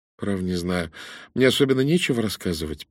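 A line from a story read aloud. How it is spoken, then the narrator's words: Mumbling. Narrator (Russian): промямлила Корнелия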